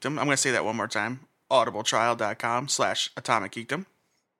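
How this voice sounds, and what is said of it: Put-on announcer-style movie voice. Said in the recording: “my good movie phone voice”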